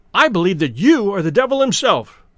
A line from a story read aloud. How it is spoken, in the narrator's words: he cried